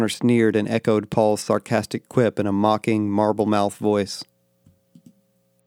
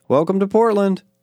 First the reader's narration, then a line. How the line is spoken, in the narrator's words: Paul called out